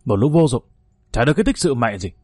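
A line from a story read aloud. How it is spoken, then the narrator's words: Enraged shouting. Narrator (Vietnamese): Hùng đang trong cơn say máu, quát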